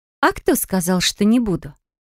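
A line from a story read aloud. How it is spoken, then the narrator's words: Chuckle. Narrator (Russian): хохотнула Бристия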